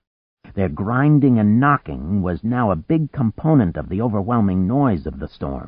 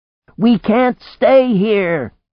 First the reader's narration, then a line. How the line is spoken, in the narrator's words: she shouted